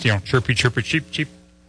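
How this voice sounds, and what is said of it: Imitated bird chirping. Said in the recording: “trying to find birds in the nest? ... that's not a bad imitation.”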